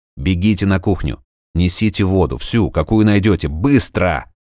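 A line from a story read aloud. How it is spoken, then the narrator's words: Impatient bark. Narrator (Russian): Рявкнул он, заметив, что те не спешат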